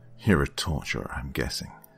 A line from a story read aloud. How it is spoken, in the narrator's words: I spat out flatly